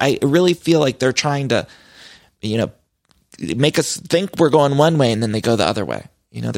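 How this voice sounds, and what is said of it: Usual voice. Nothing is said of it.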